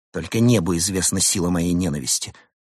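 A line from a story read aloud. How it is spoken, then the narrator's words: Grumbling. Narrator (Russian): проворчал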